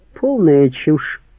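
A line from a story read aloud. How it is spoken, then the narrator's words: Sighing, aloud. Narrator (Russian): Она вздохнула и сказала вслух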